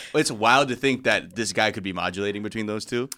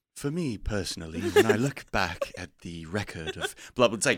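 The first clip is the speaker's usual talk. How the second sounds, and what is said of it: Put-on English accent. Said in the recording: “you need to see the English accent here? I speak a bit of the Queen's English.”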